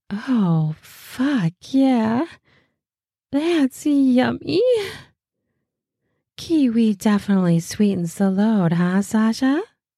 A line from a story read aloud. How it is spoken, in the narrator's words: laughs mutters